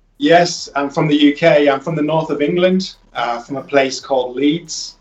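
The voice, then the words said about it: UK northern English accent. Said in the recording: “you sound like you got a UK accent”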